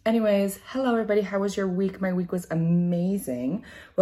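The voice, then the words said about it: Slightly hoarse voice. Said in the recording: “My voice is a little hoarse because I have been staying up very late”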